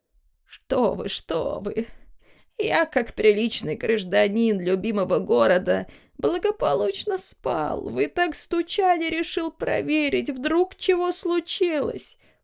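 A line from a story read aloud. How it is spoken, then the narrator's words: Desperate old man babbling. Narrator (Russian): пролепетал дед, словно пытаясь ухватиться за соломинку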